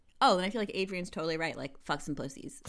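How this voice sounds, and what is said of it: Exaggerated bro-style voice. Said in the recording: “your best bro impression”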